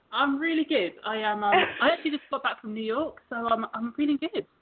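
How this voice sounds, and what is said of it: London accent. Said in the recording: “Love your accent. ... From London originally”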